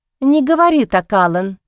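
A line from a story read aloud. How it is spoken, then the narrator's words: Exclaiming. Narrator (Russian): воскликнула она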